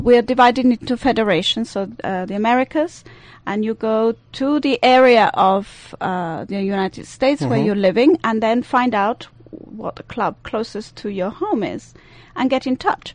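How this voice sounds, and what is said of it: Swiss accent. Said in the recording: “she has this lovely, wonderful accent... I do have an accent. I'm Swiss.”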